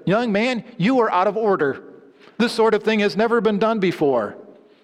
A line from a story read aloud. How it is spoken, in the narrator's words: The dumbfounded judge then reached a level of composure and said rather firmly